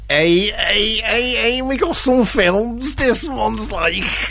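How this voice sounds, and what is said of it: Put-on Scouse accent. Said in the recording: “I did it in a Scouse accent.”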